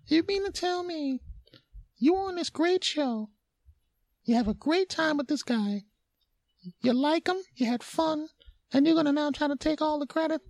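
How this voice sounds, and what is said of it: High-pitched put-on voice. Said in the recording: “that high voice was just me talking to me”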